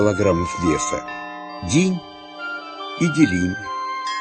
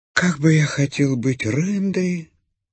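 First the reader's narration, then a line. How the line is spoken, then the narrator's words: Sad sighing. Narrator (Russian): вздыхал грустно Бим-Бим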